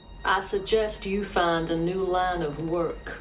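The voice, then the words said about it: Counselor Troy accent with bad Southern twang. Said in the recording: “Troy accent plus Southern accent, and it's just kind of bad”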